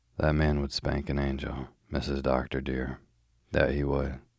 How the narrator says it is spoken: she had declared bitterly

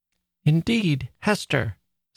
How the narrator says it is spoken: sobbed out my child

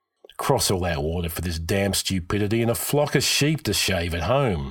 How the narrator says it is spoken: Hakon grumbled

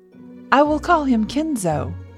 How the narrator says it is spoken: exclaimed suddenly

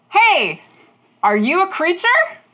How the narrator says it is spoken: Rosie yells

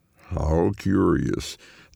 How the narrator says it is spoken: the man drawls

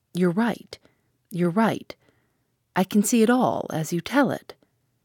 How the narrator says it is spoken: in a choked voice she said

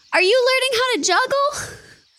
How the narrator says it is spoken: Bertie Lemieux yells

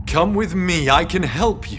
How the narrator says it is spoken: James called out

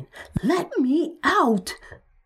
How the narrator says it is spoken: Frustrated, screaming

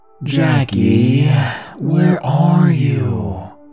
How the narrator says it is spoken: I gasped

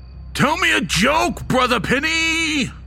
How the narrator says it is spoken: He bellowed

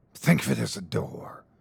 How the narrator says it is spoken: hissed the gatekeeper

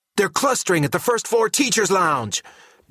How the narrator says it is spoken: Ping Zero shouts over the din of groans

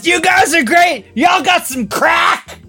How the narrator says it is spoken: in the loudest voice I could ever imagine, she says

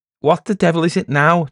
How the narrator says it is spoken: Charlesy shouted

